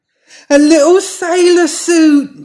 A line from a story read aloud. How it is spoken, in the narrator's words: she exclaimed